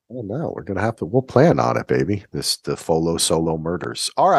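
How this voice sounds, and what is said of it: Usual voice. Nothing is said of it.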